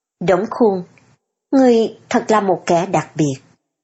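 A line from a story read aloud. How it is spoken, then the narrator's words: Gentle, low voice. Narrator (Vietnamese): trở nên dịu dàng, hạ giọng nói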